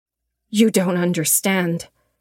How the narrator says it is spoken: she spat

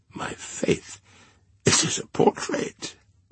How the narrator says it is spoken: said Madame, laughing

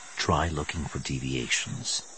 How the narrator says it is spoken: Skywalker murmured

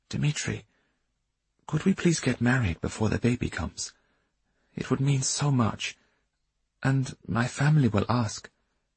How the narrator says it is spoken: Rosa asked timidly

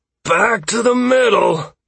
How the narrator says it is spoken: Trace yelled wearily

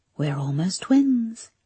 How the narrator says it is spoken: the figure whispered

